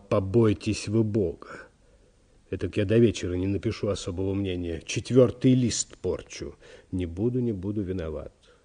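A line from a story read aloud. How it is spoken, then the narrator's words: Apologetic whisper. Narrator (Russian): извинился секретарь и продолжал шепотом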